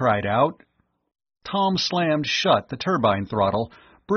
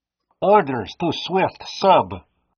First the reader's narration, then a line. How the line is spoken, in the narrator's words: a voice barked over the set